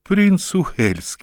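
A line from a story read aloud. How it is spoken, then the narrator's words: Exclaimed. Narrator (Russian): воскликнул Хаки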